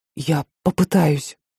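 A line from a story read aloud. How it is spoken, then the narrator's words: Whisper. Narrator (Russian): прошептал парень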